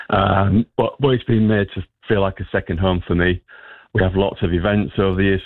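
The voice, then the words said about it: Northern regional accent. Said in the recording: “You might be able to tell from my accent that I'm not originally from the area. I'm from further north.”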